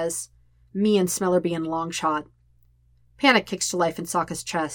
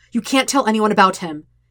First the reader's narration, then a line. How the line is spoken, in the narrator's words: he says sharply